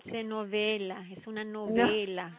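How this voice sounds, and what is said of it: Put-on Italian accent. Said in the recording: “You've got that Italian accent.”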